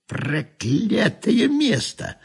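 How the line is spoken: Grumbling through teeth. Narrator (Russian): проворчать сквозь зубы

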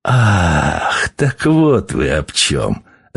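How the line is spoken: Burst of laughter. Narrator (Russian): расхохотался он

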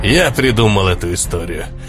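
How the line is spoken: Quiet. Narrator (Russian): тихо сказал Магдум

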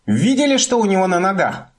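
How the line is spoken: Exclaimed. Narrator (Russian): воскликнула она

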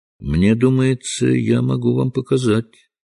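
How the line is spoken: Calm reply. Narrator (Russian): спокойно ответил Холмс

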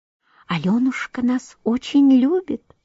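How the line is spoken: Whisper. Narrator (Russian): шептали фиалки

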